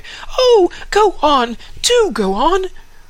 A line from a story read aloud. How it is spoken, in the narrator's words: the children clapped their hands and cried